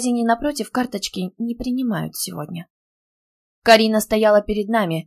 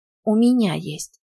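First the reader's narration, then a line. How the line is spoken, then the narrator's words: Sigh. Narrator (Russian): вздохнула я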